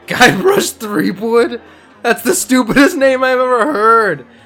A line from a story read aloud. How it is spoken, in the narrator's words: The pirate laughs heartily